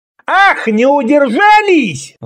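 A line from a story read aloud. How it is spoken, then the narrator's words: Yelled. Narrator (Russian): завопил Шилам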